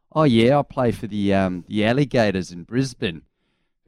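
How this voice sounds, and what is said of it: Put-on Australian accent. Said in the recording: “wait for your Australian accent.”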